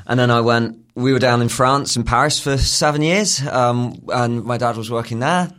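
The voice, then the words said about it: British international school accent. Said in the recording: “the accent is from British International Schools”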